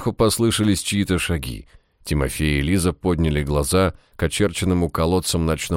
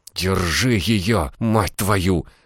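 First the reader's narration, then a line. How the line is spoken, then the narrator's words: Hissed. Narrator (Russian): зашипела на красноармейца Лиза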